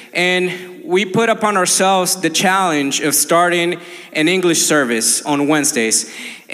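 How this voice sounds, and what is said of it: Colombian Spanish accent in English. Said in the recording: “if you haven't noticed by my accent, uh, I'm from Colombia”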